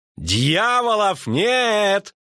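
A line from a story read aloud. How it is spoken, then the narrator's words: Poet shouting. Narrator (Russian): крикнул поэт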